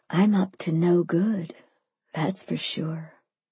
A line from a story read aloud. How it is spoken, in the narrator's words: I breathed